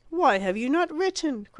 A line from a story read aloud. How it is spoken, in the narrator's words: cried the young man